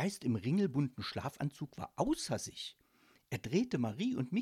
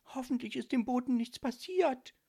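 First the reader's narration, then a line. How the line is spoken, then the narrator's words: Sad whisper. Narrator (German): traurig flüsterte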